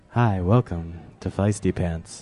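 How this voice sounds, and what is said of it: Lower, relaxed radio-announcer voice. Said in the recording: “radio voice ... my radio voice would be something more like this, a little bit lower, a little more relaxing”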